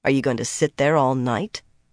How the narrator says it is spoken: Nynaeve asked dryly

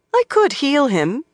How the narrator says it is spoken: replied coolly

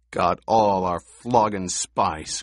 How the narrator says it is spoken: growled another

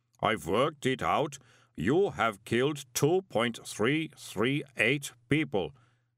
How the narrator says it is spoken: said the golem calmly

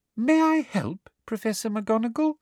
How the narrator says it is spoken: asked Professor Umbridge in her most poisonously sweet voice

